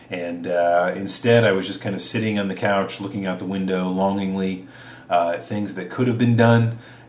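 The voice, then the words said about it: Congested, stuffed-up voice. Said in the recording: “hear it in my voice. I'm still kind of stuffed up. I got a little sick ... the frog in my throat”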